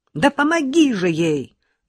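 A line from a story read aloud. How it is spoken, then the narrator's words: Mother shouting. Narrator (Russian): закричала отцу мать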